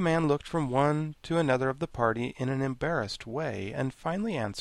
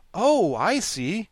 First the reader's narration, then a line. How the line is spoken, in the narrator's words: cried the Scarecrow, greatly reassured